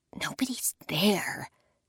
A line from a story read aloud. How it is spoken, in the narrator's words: I finally whisper